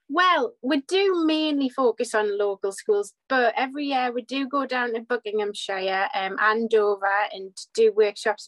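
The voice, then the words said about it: Northeast English accent. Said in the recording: “I can tell by your accent that you're up in the northeast of England”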